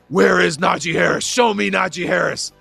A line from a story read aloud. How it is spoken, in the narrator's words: I scream out